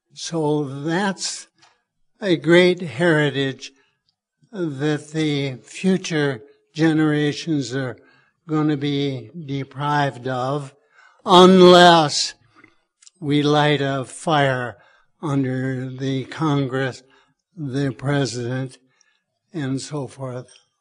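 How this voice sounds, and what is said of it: Voice in poor condition. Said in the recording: “sorry about my voice.”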